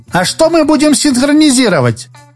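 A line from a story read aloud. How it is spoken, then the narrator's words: Squeaky girl's voice. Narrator (Russian): пропищала рыжая девица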